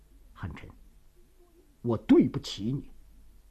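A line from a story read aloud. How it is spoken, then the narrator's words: Low, moved. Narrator (Chinese): 郭松龄心中一热，愣了一下，他低声地说着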